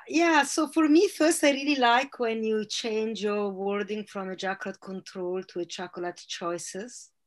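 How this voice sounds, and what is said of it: Italian accent. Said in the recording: “with a beautiful Italian accent”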